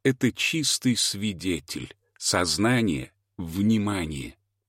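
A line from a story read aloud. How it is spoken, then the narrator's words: Plain. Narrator (Russian): ответил он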